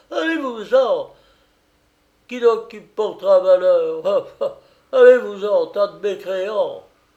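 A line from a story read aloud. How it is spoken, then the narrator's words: Furious, distraught screaming. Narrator (French): trembler de fureur, bouleversée, hurlant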